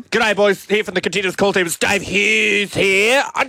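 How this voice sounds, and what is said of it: Imitates another person's voice. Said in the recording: “Can we get a Dave Hughes impersonation off ...? ... Do you do a Hughesy, Dave? ... That's very good. ... Very distinct very voice.”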